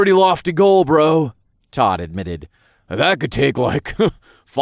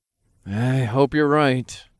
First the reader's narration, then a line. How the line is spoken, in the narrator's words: I sighed